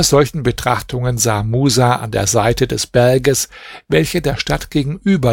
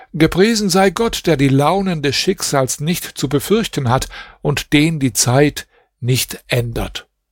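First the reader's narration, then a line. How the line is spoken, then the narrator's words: Amazed exclamation. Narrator (German): Musa wunderte sich über den traurigen Zustand dieser Stadt und rief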